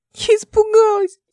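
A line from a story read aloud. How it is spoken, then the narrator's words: Tearful speech. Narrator (Russian): сквозь слезы говорила Ника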